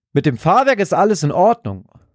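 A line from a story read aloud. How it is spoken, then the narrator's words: Triumphant call. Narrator (German): ruft Stan einen kurzen Moment später triumphierend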